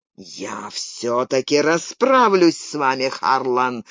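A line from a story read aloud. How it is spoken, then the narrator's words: Growled. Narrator (Russian): зарычал Телланд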